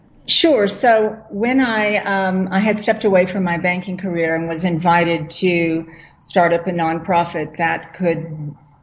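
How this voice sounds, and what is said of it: American accent. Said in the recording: “the accent is American”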